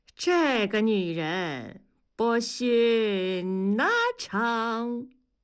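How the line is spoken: Sighing in imitated opera tone. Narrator (Chinese): 大庄学着沙家浜的腔调感叹着

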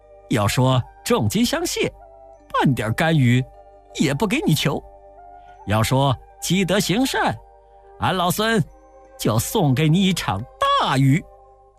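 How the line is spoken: Cheerful laughing. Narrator (Chinese): 悟空听了，笑呵呵地说

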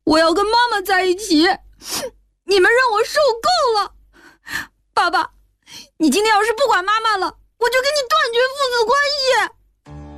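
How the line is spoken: Crying. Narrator (Chinese): 小军边哭边说

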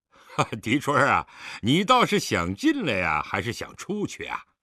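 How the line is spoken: Question after laughter. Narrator (Chinese): 待狄仁杰笑止，问道

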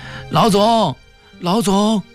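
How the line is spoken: Shouting. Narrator (Chinese): 一个警察，喊

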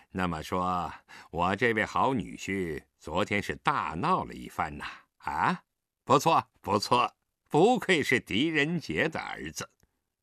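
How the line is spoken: Sneering. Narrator (Chinese): 他冷笑一声道

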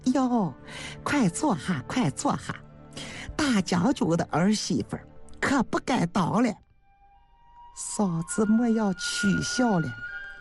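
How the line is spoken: Laughing. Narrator (Chinese): 刘氏笑着说

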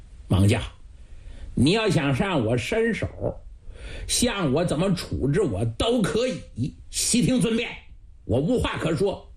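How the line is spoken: Cold laugh. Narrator (Chinese): 圣谕冷笑了几声

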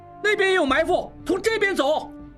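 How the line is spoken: Calling out. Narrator (Chinese): 应文叫道

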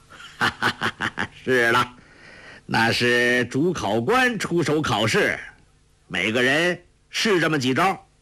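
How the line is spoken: Laughing. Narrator (Chinese): 欧阳锋笑道

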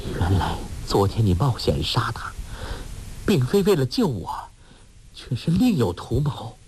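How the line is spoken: Trembling, disheartened. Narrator (Chinese): 穆念慈顿时凉了半截，颤声说

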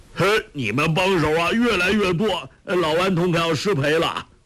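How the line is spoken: Shouting. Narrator (Chinese): 周伯通叫道

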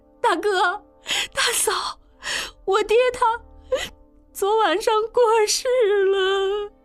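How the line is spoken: Crying. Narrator (Chinese): 应英媳妇哭道

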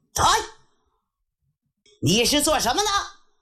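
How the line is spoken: Thunderous shout. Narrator (Chinese): 有一个人一声喝喊，嗓音如雷呀

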